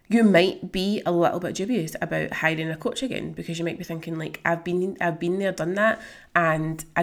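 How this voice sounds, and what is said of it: Strained, failing voice. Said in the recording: “excuse me, my voice is going.”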